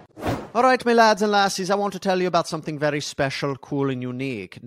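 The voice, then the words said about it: Poor attempt at Scottish accent. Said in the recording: “No, that's just not a Scottish accent. Wanted it to be. It sounds Irish, sounds Jamaican. ... That's not great.”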